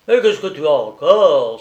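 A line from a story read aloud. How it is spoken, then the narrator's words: Impatient exclamation. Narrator (French): s'écria-t-il avec impatience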